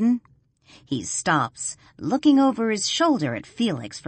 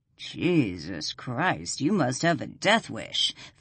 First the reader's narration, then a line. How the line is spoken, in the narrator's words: Felix growls